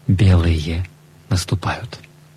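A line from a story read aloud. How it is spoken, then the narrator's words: Whisper. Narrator (Russian): Он шепнул нам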